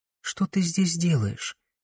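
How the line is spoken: Quiet question. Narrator (Russian): тихо поинтересовалась Камилла

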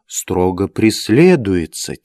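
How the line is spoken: Very quiet whisper. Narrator (Russian): тихо-притихо прошептал

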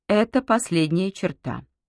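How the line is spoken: Solemn proclamation. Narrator (Russian): торжественно провозгласила хозяйка

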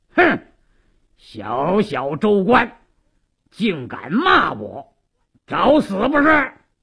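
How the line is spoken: Harsh shout. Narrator (Chinese): 鲁斋郎厉声喝道

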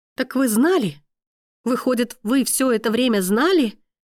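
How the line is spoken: Breathless, furious. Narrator (Russian): Выдохнула она и, не в силах совладать со своей злостью

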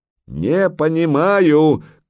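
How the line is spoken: Shouting. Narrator (Russian): крикнул он

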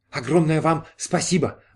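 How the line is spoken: Exclamation. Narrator (Russian): воскликнул Эскин

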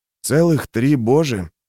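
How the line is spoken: Dry grumble. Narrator (Russian): сухо буркнул Юранд

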